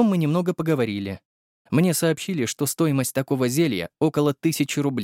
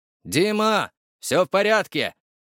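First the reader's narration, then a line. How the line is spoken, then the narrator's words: Shout. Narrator (Russian): крикнул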